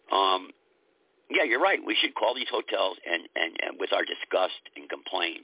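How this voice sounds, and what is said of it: Strained, fading voice. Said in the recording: “I'm losing my voice already. Got me all hyped up.”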